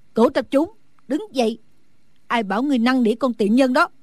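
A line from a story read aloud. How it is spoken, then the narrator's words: Loud angry shout. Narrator (Vietnamese): Phương Cô lớn tiếng quát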